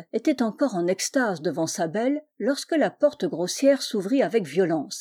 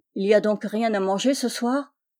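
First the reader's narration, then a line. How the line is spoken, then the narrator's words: Gruff question. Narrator (French): demanda-t-il d'un ton bourru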